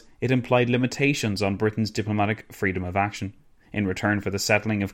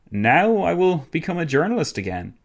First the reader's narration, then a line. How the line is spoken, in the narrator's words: exclaimed